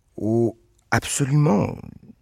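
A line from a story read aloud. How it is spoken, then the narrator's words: Plain. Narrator (French): dit Reggie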